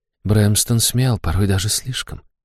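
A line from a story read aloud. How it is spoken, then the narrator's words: Whisper. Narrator (Russian): шепнула она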